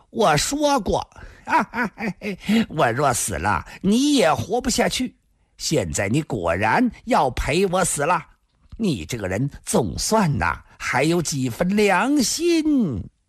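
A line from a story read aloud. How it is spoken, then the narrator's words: Manic laughter. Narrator (Chinese): 胡梅已疯狂般的大笑起来，紧接着说道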